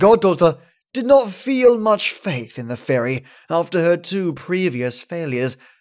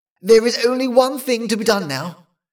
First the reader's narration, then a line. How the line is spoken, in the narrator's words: cried she